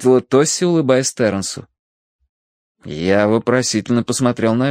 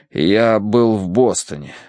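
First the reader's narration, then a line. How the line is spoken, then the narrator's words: Forced out. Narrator (Russian): выдавил я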